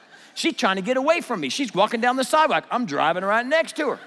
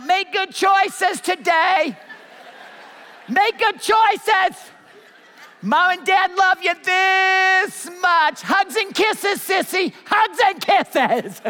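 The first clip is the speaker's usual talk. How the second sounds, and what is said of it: Shouting. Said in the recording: “I'm shouting out”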